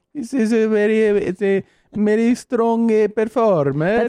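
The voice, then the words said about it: Put-on Italian-sounding accent. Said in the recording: “Do Australian now. ... That's Italian.”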